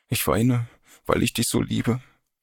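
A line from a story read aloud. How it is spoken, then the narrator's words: Sobbing. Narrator (German): schluchzte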